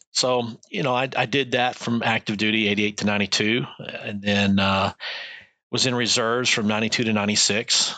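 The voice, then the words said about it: Slight Texas accent. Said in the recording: “I grew up in Texas. ... I've heard the little bit of an accent. ... A little bit of accent, yeah.”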